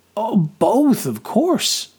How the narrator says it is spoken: I exclaimed

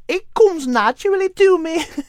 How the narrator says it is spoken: Molly giggled

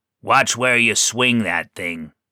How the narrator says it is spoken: growled

